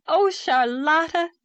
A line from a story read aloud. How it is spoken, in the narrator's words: she cried gaily